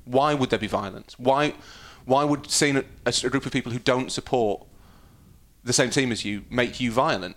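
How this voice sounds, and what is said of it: Middle class English accent. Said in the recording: “I might have a middle class accent”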